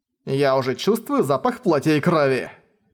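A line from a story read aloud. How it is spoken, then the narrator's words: Growled. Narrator (Russian): прорычал И Чэньзы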